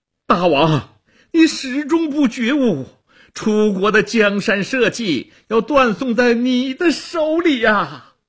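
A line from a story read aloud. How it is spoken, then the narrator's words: Desperate struggling shout. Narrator (Chinese): 屈原挣扎着高喊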